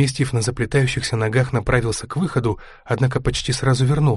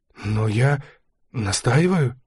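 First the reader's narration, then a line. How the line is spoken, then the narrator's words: Timid. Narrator (Russian): робко произнес поручик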